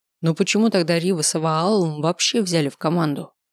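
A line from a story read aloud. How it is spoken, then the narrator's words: Plain question. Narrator (Russian): спросила Миранда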